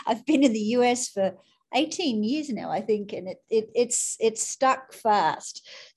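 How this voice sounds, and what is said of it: Australian accent. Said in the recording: “you are not from the United States originally ... That accent still lingers on ... I grew up in Australia. I grew up in Sydney”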